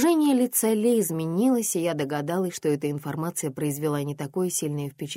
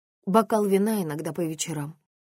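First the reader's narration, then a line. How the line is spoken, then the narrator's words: Gloomy reply. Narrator (Russian): ответила я мрачно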